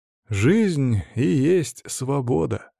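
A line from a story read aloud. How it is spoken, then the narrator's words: Wry snort. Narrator (Russian): хмыкнул я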